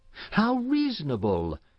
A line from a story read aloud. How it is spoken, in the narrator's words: exclaimed Florence